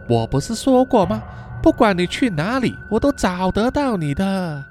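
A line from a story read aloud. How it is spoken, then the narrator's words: Smiling quiet speech. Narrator (Chinese): Mila 一直保持着笑容 只是小声的说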